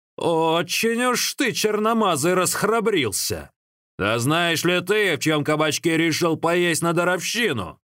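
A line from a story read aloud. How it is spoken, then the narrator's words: Huge man angrily bellowing. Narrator (Russian): огромный, как тигр, детина и сердито заорал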